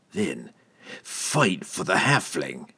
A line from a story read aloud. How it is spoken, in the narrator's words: Entreri growled